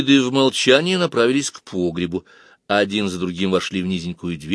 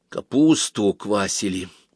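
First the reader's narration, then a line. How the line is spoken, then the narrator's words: Whispered. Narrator (Russian): прошептала Вава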